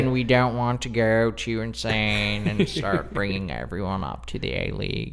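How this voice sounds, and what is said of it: Imitates another person's voice. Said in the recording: “my Lorne impression”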